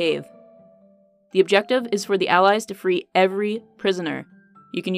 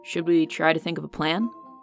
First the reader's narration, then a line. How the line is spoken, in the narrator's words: Seb murmured